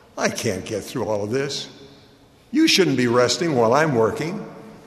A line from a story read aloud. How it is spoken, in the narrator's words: He said with a chuckle